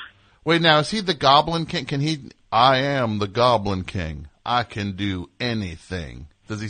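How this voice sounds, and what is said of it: Usual voice. Nothing is said of it.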